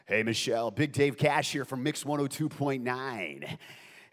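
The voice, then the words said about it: Radio DJ voice. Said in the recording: “put on my DJ voice.”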